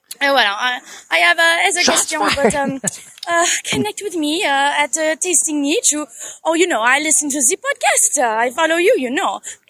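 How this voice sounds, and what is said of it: Natural French accent. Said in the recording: “a funny French accent ... That's her real accent”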